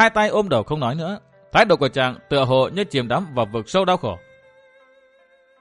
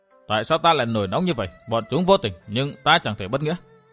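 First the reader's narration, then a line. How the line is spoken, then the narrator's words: Muttering to himself. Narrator (Vietnamese): miệng lẩm bẩm một mình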